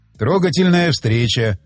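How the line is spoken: Sighing. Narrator (Russian): вздохнул он

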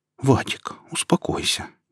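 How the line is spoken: Gentle interjection. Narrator (Russian): мягко вмешалась Александра

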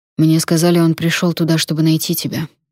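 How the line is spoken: Quiet. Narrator (Russian): негромко сказал сэр Конрад

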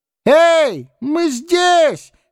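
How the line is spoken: Hopeful shouting crowd. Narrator (Russian): кричали люди на берегу, обуреваемые надеждой на скорое спасение

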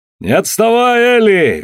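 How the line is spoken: Cheerful yelling. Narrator (Russian): весело орал Алан

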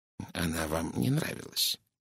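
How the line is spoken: Soft gentle. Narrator (Russian): мягко произнес Пуаро

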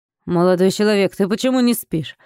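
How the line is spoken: Father asking sternly. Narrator (Russian): строго спросил отец

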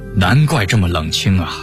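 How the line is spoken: Flat, offhand. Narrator (Chinese): 陈廷敬 嘴上却只淡淡地说

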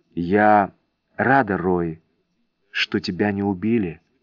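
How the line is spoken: Whispered. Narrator (Russian): прошептала она

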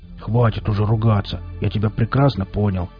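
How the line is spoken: Surprised mutter. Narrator (Russian): буркнул Велес, который совсем не ожидал, что Валдис окажется таким мрачным и обидчивым типом

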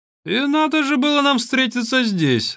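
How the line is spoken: Laughing. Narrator (Russian): рассмеялся монах

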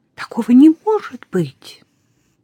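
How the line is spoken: Shocked exclamation. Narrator (Russian): Известие было столь ошеломляющим, не сдержавшись, воскликнула

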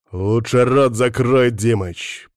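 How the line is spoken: Growling. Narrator (Russian): прорычал я

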